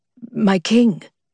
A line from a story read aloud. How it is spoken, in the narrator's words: Bert sputtered, face aimed at the dirt beneath him